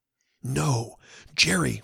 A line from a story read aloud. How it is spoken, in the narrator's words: whispered Venters